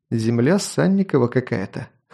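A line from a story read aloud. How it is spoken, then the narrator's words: Snort. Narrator (Russian): хмыкнул я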